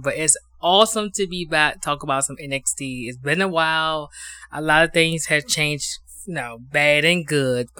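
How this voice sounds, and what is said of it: Hoarse, strained voice. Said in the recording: “My voice is gone. I finally caught a cold”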